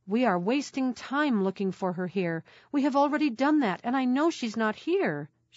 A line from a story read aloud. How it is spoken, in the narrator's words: she cried